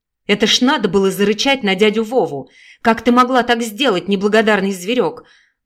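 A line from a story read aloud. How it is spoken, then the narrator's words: Loud angry shout. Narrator (Russian): Громко закричала мать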